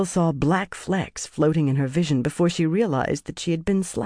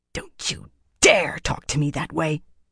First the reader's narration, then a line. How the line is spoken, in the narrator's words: Galena hissed